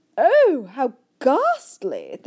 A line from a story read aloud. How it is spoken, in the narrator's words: the famous voice cried out